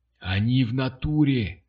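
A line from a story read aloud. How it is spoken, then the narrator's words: Breathless, self-convincing. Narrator (Russian): выдохнул Бугай с такой убежденностью, какую только мог продемонстрировать человек, убеждающий сам себя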